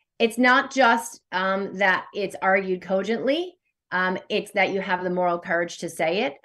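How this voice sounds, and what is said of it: American accent. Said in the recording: “It's my American accent”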